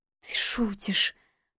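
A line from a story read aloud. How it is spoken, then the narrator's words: Disbelieving whisper. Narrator (Russian): прошептала я, все еще не веря, что он принес сюда все это после того, как я отменила наше свидание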